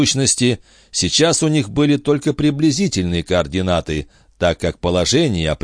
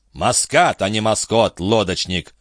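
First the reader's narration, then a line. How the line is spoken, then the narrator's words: Grumbling. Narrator (Russian): проворчал его друг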